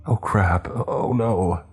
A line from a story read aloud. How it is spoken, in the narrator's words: Merlin whimpered